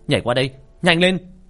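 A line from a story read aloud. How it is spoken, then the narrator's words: Urgent shout. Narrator (Vietnamese): Sinh hét lên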